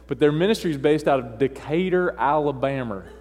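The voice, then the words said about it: Put-on Southern US drawl. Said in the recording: “I have to kind of bring in my southern drawl... I can't say that without going south”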